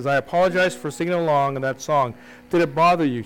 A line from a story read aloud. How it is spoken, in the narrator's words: she asked